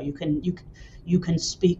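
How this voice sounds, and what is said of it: Imitates another person's voice. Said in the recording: “terrible James Earl Jones impression”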